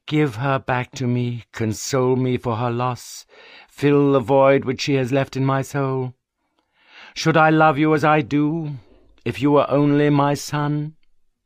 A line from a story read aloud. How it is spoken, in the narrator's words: said he with a sigh